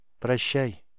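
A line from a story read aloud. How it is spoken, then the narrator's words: Sad, smiling. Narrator (Russian): он грустно улыбнулся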